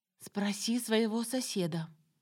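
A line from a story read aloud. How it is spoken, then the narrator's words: Conspiratorial whisper. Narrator (Russian): процитировала заговорщическим шепотом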